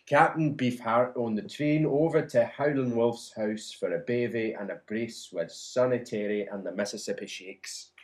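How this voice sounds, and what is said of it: Put-on generic Scottish accent. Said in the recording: “it didn't sound like an Edinburgh accent to me ... It's generic Scottish ... generic, slightly drunk Scots ... That is Erinsborough”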